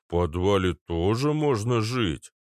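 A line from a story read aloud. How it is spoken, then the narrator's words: Booming. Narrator (Russian): прогудел Арнольд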